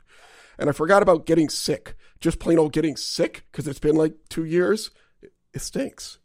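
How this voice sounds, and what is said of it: Rough, sick-sounding voice. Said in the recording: “I apologize for my voice. I'm getting over a non-COVID cold.”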